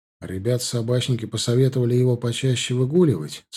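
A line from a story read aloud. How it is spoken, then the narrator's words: Plain. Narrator (Russian): сказал я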